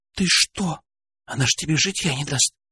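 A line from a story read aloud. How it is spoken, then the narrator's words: Whisper in ear. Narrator (Russian): шепнула на ухо Алена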